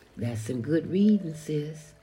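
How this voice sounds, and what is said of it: Put-on southern accent. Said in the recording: “As my brother would say with his southern accent”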